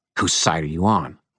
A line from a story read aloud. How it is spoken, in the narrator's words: Rudolph hissed